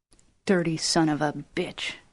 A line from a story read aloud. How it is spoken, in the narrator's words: whispered